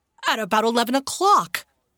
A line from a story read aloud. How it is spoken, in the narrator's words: Henry cried